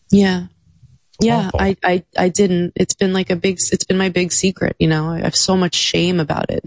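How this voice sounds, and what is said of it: Choked up, emotional voice. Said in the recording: “I'm getting choked up. I'm getting emotional ... you're getting emotional”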